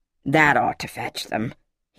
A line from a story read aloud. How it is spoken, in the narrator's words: he muttered, almost to himself